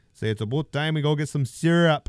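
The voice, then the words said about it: Put-on Canadian accent. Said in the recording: “That's my Canadian accent.”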